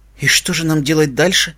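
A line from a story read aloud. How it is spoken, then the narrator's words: Quiet question. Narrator (Russian): тихо спросила Твай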